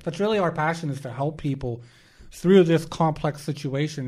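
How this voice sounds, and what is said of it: Strained, worn-out voice. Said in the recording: “my voice is struggling today”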